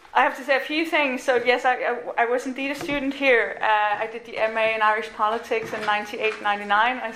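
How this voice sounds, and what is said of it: Danish accent. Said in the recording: “the accent you're hearing is a Danish accent”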